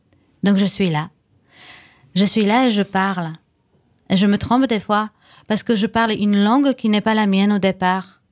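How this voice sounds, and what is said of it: Charming foreign accent in French. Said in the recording (French): “avec le bon accent? Oh, il est très charmant, votre accent.”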